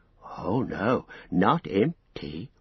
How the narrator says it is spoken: whispered Gollum

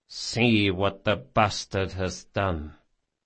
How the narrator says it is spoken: Barsavi said softly

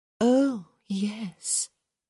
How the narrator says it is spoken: Hyacinth murmured

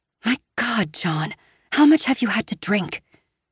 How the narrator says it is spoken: I whisper shout

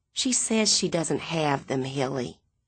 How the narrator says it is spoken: Miss Leafolt whisper

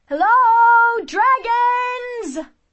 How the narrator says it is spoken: Cimmerine shouted, trying to make herself heard above the noise

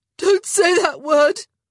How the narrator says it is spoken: she gasped

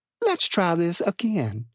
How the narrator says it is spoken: she said sweetly

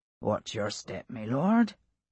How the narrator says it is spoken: in a mild tone of voice

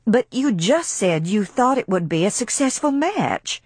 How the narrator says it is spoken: cried Scarlet, bewildered

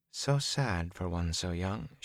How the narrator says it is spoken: she said softly

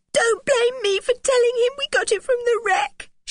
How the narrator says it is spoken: she sobbed

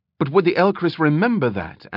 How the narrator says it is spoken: Amberley countered quickly

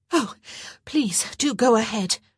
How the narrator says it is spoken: she replied, still gasping for breath

